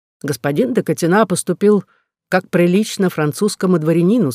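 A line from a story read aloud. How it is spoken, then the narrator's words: Plain. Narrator (Russian): сказал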